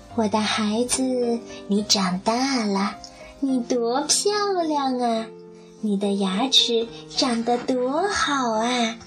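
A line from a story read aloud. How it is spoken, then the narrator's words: Admiring mother crocodile. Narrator (Chinese): 鳄鱼妈妈都会感叹说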